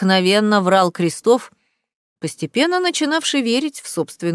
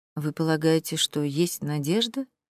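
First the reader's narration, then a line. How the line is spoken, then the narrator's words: Quiet question. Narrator (Russian): тихо спросил Поль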